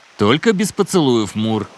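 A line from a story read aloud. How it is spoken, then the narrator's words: Habitual growl. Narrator (Russian): привычно зарычал Мони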